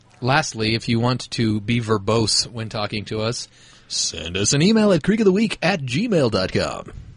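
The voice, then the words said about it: Announcer-style radio voice. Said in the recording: “that was a good radio voice... You sound like Cliff from Veronica Mars... not Cliff from Cheers?... That's what I was going for.”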